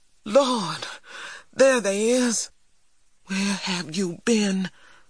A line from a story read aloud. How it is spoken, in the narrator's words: Big Ma cried